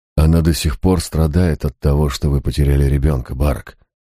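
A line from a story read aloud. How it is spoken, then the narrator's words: Soothing tone. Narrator (Russian): успокаивающим тоном произнес я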